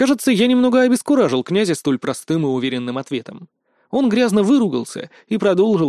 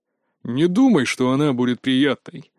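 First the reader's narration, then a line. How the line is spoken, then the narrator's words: Grumble. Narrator (Russian): проворчал Дмитрий Анатольевич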